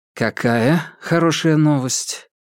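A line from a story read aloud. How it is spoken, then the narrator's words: Quiet speech. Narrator (Russian): Ли Джи Юн тихо сказал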